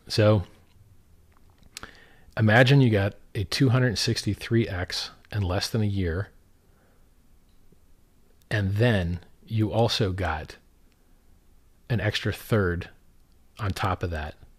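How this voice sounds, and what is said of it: Hoarse, strained voice. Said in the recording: “my voice is already wrecked”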